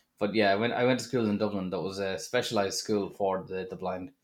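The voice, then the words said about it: Mild Irish Drogheda accent. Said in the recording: “I have a less than hard Drogheda accent.”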